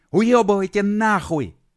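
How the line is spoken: Yelled from above. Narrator (Russian): С высоты комбайна заорал Серега другим бродягам

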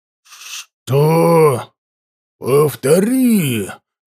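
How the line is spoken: Growled. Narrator (Russian): зарычал я

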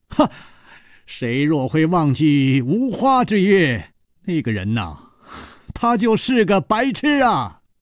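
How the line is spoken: Loud laughing. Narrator (Chinese): 楚留香高声笑道

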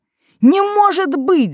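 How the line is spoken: Shouting. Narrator (Russian): закричал он

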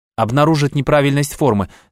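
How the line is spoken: Plain. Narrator (Russian): сказала Маша

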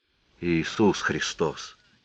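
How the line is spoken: Quiet. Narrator (Russian): сказал шериф тихим голосом

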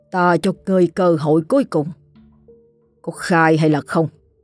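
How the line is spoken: Stern, menacing. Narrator (Vietnamese): gằn giọng

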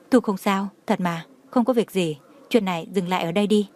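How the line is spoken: Quiet, pleading, forced smile. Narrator (Vietnamese): Đường Khả Hinh miễn cưỡng nặn ra nụ cười, ánh mắt lộ ra van xin, nhỏ giọng nói

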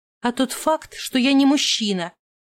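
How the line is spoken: Irritated, through teeth. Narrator (Russian): раздраженно процедила я

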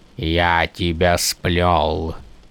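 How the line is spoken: Accented killer's question. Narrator (Russian): спросил убийца на алетийском языке с акцентом

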